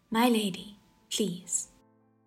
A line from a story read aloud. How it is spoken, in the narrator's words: He chided gently